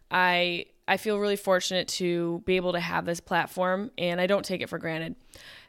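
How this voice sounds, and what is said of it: Worn-out, strained voice. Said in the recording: “my voice is kind of gone.”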